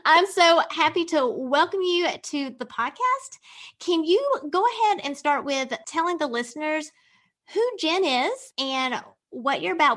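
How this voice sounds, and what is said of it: Country twang accent. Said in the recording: “my little country twang”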